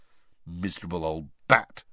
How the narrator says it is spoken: said Ron bitterly

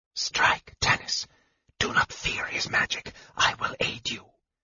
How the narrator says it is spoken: The voice was no more than a whisper, yet so clear and so intense

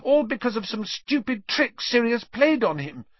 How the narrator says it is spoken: Hermione said desperately

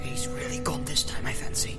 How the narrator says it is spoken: muttered Sam

